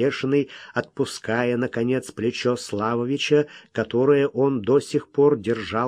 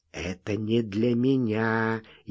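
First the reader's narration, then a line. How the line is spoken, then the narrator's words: Even quieter whisper. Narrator (Russian): еще тише прошептал Бешеный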